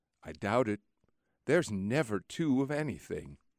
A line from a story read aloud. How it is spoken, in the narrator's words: my friend gently reflects